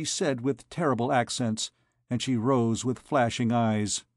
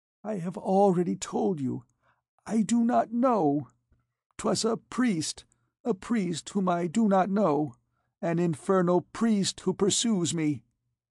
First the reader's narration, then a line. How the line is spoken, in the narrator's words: She replied in a broken voice